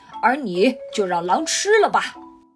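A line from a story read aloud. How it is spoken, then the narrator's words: Group roaring. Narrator (Chinese): 他们吼道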